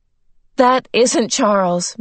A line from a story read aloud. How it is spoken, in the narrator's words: Meg cried